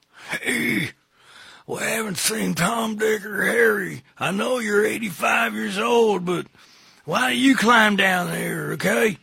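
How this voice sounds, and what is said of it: Redneck accent, drawn-out words. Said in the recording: “I give him a redneck accent ... You gotta dumb them down. And stretch out their words.”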